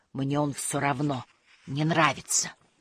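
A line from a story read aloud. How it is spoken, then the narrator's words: Muffled whisper. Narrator (Russian): Сунув голову в печку, Муми-тролль прошептал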